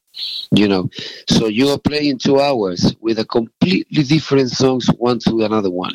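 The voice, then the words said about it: Uruguayan Spanish-accented English. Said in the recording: “if people listen to your accent, obviously you're not originally from Liverpool. You're originally from Uruguay.”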